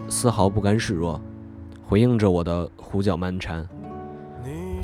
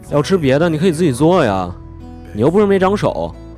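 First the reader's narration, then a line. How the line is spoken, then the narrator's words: Loud shouting. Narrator (Chinese): 我冲他大声喊叫道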